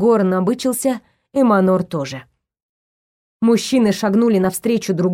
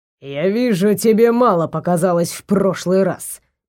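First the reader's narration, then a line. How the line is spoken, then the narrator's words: Sorcerer speaking through teeth. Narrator (Russian): процедил колдун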